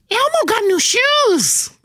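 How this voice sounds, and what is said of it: Elmo puppet character voice. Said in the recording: “do this in his voice ... Do you do an Elmo? ... you're right in the right key”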